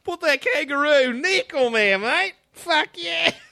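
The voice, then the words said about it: Mixed put-on Australian accent. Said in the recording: “That's kind of Australian. But, I'm mixing my accent.”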